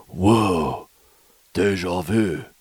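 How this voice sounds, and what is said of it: Imitates another person's voice. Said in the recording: “That's my Keanu Reeves impression.”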